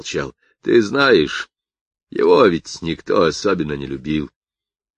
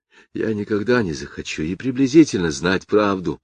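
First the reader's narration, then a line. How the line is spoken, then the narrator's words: Whisper. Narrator (Russian): прошептал Кевин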